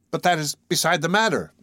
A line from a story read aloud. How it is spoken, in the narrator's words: cried